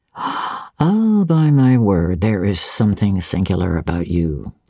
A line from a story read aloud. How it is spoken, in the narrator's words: said he